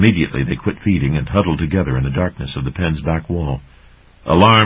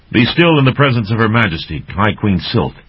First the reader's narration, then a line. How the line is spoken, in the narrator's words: Ulig snarled